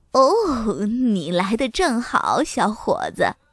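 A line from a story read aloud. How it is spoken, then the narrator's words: Smiling warmly. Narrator (Chinese): 伍德阿姨笑眯眯地说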